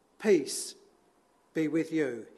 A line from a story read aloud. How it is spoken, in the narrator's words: said